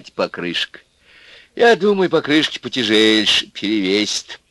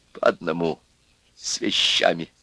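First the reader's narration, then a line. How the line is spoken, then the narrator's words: Quiet. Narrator (Russian): тихо сказал Чернявый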